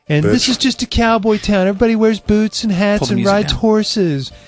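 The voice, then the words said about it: Imitates another person's voice. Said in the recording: “Khloe Kardashian impersonation”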